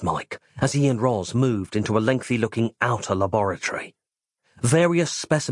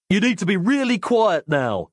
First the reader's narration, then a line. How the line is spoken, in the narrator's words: he said loudly